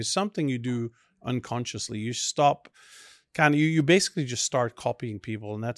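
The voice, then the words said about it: Belgian accent mixed with Australian, English, Texan. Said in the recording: “a completely different accent. So you obviously hear the Belgian behind it, but then it's also a mixture of Australian, English, Texas, and whatever”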